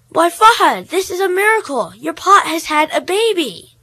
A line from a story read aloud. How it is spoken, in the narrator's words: exclaimed